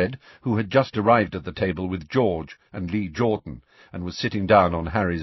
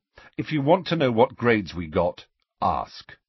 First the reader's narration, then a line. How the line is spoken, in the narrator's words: said Ron sharply